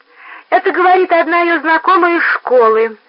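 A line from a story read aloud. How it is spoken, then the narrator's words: Squeaky voice. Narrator (Russian): опять запищал Рой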